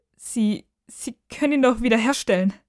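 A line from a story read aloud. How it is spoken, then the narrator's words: Sobbing. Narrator (German): schluchzt Amber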